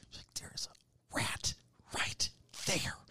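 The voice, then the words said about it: Whispered quoted line. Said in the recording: “Why are you whispering?”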